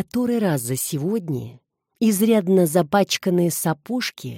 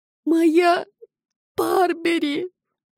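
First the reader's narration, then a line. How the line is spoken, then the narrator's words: Sobbing nymph. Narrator (Russian): всхлипывала грязно-розовая нимфа ноябрьского болота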